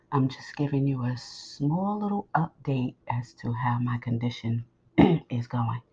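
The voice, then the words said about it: Strained near-whisper voice. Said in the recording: “As you can tell, I am pretty much whispering, if that's what you hear. But I am really trying to project my voice”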